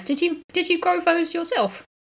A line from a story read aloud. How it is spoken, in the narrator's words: She laughs way harder than was really worth it